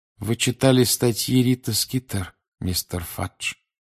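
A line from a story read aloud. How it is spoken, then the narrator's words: Quiet. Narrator (Russian): тихо произнес он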